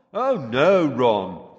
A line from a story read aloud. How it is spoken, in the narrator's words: came Fred's voice, very sarcastically